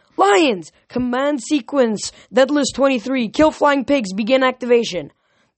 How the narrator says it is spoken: yelled

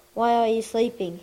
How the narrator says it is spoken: he asked

